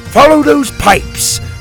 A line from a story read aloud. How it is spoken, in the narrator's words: Drake roared